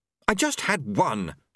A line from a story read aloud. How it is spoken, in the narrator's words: she snapped